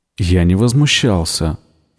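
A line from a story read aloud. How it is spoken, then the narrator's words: Forced calm objection. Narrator (Russian): возразил он, пытаясь говорить спокойно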